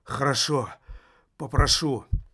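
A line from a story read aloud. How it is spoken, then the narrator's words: Barely forced out. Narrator (Russian): еле выдавила из себя Аделла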